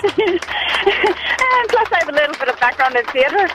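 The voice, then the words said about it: Fake Irish accent. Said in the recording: “Is this your fake accent? It's terrible. ... I actually am part Irish”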